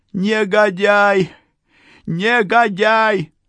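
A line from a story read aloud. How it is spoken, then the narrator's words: Yelling, then abruptly breaking off. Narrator (Russian): заорала Юля и осеклась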